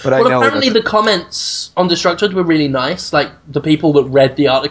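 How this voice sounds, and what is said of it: Usual voice. Nothing is said of it.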